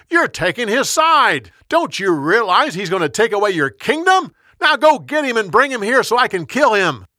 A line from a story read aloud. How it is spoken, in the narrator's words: Saul yelled at his son